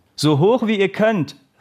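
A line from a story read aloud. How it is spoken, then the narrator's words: Calling out. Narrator (German): rief der Trainer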